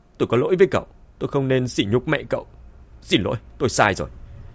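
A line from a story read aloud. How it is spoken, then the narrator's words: Flustered loud shout. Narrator (Vietnamese): Bạch Lý Huyền lập tức luống cuống hét lớn với Mã Tuần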